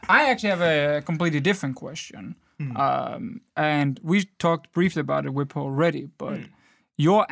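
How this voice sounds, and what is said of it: Strong Danish accent. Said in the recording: “I'm obviously a man of a very special accent. ... It's very clear I'm from Denmark.”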